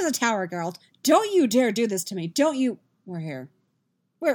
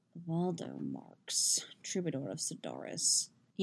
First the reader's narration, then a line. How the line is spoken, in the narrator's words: the Asgir is murmuring, low enough that only Geralt can hear